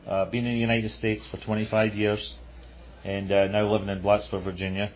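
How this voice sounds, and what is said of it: Non-American foreign accent. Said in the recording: “I've picked up a strange accent from you. I don't think you're from the United States.”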